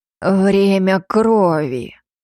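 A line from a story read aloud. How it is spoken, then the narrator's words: Hoarse, savoring hiss. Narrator (Russian): прошипел другой, хриплый и с особой интонацией, как будто произносил любимое слово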